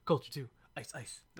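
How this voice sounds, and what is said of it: Poor imitation of rapper voices. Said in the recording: “my worst Migos impression ever”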